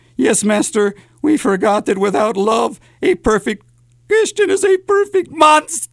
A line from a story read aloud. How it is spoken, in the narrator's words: whimpered